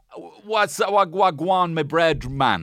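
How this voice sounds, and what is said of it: Briefly put-on accent. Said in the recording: “I shouldn't have done the accent. I tried to bail on it immediately.”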